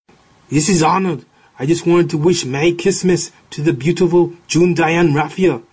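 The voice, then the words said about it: Arnold Schwarzenegger impression. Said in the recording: “your best Schwarzenegger impression”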